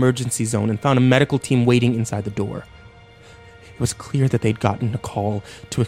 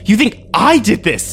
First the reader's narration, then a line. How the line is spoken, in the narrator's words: I screamed at him